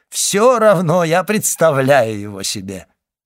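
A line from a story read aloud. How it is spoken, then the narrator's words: Loud laughter. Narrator (Russian): И он громко захохотал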